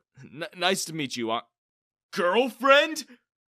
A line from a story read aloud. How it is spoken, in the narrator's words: I exclaimed